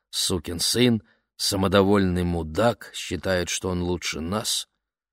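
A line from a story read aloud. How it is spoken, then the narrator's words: Muttering under breath. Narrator (Russian): бормотал себе под нос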